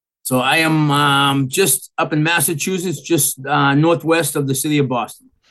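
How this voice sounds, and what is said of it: Boston Massachusetts accent. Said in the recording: “By your accent, I'm guessing you've probably been there a long time... the accent's pretty bad”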